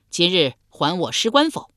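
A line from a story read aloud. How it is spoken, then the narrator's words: Loud shouting. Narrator (Chinese): 先轸使人与城下大叫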